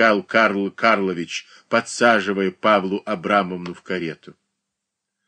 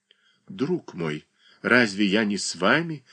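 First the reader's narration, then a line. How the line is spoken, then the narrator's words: Quiet whisper. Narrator (Russian): тихо прошептал Карл Карлович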